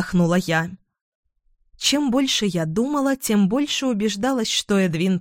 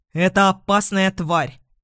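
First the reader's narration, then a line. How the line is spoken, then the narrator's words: Irritated. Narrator (Russian): раздраженно сказал он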